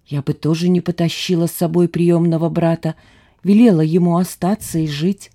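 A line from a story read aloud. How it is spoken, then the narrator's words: Whispering. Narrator (Russian): Он и теперь мне нашептывал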